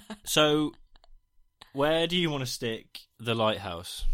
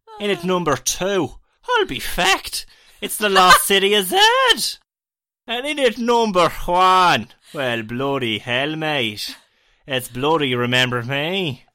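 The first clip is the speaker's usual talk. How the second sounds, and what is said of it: Shifting put-on Irish and British accents. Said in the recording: “I'll just do Irish for the rest of it ... That was what they call a well-travelled accent, in that it travelled all the way around the different parts of the UK.”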